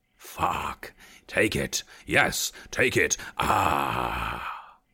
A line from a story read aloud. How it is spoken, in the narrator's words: he grunted triumphantly